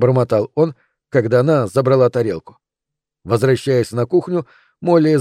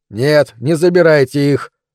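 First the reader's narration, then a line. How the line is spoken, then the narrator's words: Through gritted teeth. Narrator (Russian): сказал он сквозь зубы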